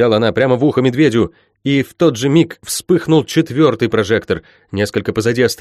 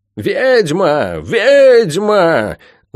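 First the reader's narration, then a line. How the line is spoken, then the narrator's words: Many voices wailing. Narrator (Russian): завопило множество голосов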